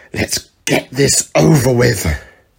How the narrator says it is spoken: Sabretooth growled

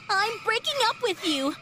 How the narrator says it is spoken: shouted, unable to hold back my tears

